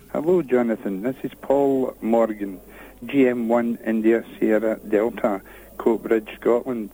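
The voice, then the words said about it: Marvellous accent. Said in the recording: “what a marvellous accent.”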